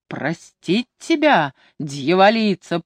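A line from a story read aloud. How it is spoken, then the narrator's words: Furious despairing roar. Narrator (Russian): проревел бедный Лео, ломая руки в ярости и отчаянии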